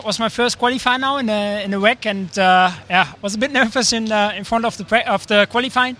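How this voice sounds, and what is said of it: Dutch accent. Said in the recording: “Dutch, as you can probably tell from his accent”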